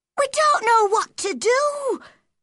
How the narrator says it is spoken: she cried

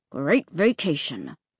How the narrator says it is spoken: he said through clenched teeth

